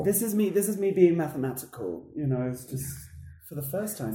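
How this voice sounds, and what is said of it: Distinct British-sounding accent. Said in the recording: “has a very distinct accent ... It just comes out British.”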